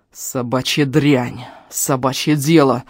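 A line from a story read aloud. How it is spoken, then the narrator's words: Growl. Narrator (Russian): зарычал он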